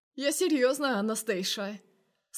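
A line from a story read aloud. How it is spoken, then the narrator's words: Intimate hoarse rasp. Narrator (Russian): хрипит интимно Паша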